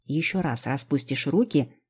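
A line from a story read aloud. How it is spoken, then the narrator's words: Snapping. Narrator (Russian): огрызнулась я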